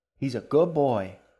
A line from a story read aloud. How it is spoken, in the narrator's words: the queen called out in her sing-song voice